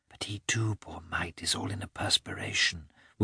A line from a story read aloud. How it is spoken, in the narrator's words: whispered Kitty